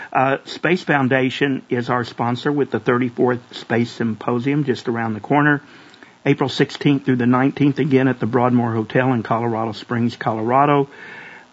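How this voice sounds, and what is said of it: Hoarse, not fully recovered voice. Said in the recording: “my voice is still not totally normal, as you can hear from my bronchitis attack earlier this year”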